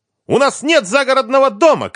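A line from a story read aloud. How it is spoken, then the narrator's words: Shouted. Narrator (Russian): крикнула Лиза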